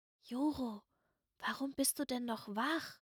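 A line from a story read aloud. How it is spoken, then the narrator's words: Whispering voice. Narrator (German): Stimme flüstern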